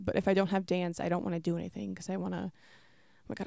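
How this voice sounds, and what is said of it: Breathless, running out of breath. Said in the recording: “I'm running out of breath.”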